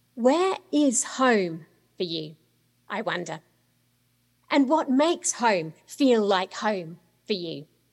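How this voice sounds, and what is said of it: Australian-born accent, not American-sounding. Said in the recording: “as you can probably tell from my accent. Is it Australia, where I was born and brought up? Is it the UK, where I lived for about 10 years? Is it here in the US, where I've lived now for 15 years, although it might not sound like it?”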